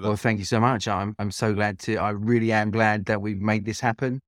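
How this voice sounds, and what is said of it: British London accent. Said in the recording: “You might hear my accent. You hear my accent. It's not Croatian. I am British. I'm from London”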